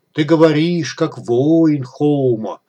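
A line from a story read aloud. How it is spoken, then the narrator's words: Respectful drawl. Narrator (Russian): уважительно протянул Кутруб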